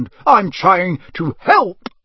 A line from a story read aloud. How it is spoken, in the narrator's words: Bellowing like a wounded hippo, Uncle Vernon